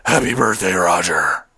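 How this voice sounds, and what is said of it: Deep gravelly Batman impression. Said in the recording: “in my Batman voice”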